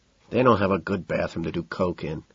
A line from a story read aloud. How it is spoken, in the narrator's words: mumbling